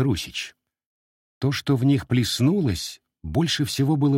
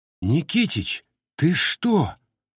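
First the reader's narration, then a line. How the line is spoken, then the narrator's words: Stunned, breathless. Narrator (Russian): Ошеломленно выдохнул ровно ничего не понимающий Василий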